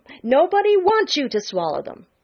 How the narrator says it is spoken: snapped Jenny

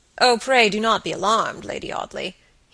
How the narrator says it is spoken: he said gravely

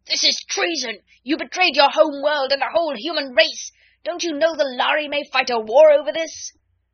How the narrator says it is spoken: the delegate from his home star of Vega actually rose and shouted to him

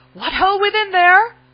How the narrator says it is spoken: his voice came plainly to the garrison in the gatehouse

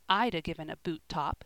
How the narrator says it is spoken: said Joel, looking grimly

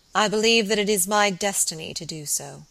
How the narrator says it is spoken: he said solemnly

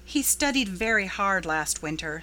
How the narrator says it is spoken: said Anne

